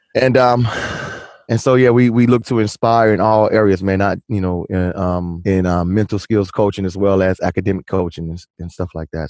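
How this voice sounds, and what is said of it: Polished radio announcer voice. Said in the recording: “I'm glad you got the radio voice on for me.”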